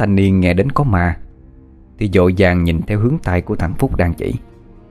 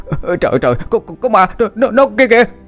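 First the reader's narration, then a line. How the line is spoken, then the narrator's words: Stammering in fear. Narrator (Vietnamese): mồm thì lắp bắp nói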